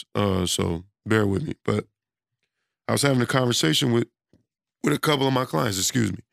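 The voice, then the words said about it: Hoarse, strained voice. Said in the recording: “I've been losing my voice, too. I don't know why, but I've been losing my voice.”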